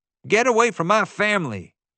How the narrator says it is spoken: he yelled

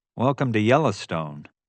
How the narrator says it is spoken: he said

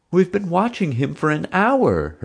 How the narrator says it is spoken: her frazzled father pleaded

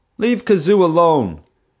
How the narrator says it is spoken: someone yelled

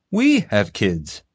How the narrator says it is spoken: the father exclaimed

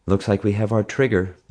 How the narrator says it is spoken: Mom sighed

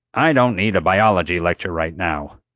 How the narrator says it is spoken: Honecker said curtly

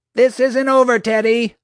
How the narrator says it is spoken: she yelled after me

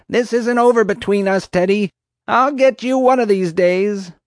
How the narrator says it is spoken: Marge howled after me

